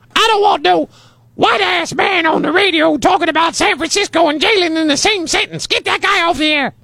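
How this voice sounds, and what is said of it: Imitates another person's voice. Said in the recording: “my Jalen imitation”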